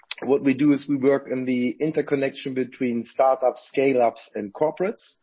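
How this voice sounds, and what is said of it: Austrian Viennese accent. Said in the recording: “wonderful Austrian Viennese accent”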